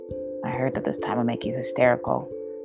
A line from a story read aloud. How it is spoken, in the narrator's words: she heard him mutter